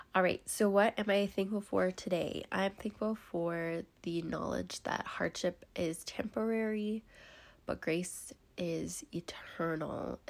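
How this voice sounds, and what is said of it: Raspy, congested sick voice. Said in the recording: “fighting off a sickness... Bear with me as I sniffle, clear my throat, have a raspy voice.”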